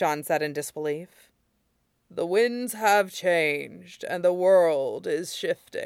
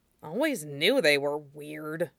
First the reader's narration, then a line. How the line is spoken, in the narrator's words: Lushan grumbled